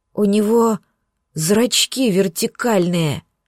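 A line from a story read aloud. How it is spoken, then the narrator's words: Hoarse croak. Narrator (Russian): прохрипела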